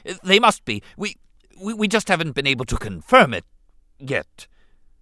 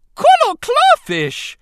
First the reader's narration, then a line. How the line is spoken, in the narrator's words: the Gungan shrieked